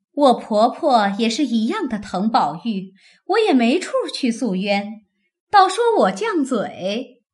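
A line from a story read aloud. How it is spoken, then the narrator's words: Laughing. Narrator (Chinese): 凤姐笑道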